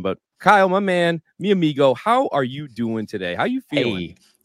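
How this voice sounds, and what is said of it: Polished sports broadcaster voice. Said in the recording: “your podcast voice, top tier ... Freaking ESPN voice ... It's not his real voice.”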